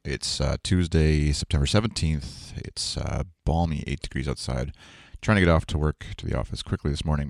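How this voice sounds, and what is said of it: Unusually low early-morning voice. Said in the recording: “This is the earliest I think I've ever recorded daily, so that's probably why my voice sounds about 5 octaves lower.”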